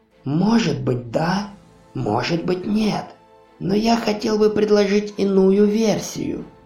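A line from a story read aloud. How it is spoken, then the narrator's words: Quiet old man. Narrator (Russian): тихо произнес старик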